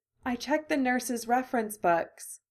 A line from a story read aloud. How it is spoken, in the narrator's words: she said quietly